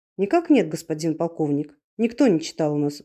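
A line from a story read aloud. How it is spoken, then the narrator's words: Sighed. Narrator (Russian): вздохнул Бальсен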